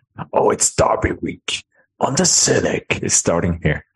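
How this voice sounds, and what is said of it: Dramatic movie-trailer announcer voice. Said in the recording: “why I did that voice ... like the Hollywood voice guy”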